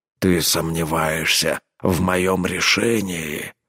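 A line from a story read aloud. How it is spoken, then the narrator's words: Growl. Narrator (Russian): прорычал Рорк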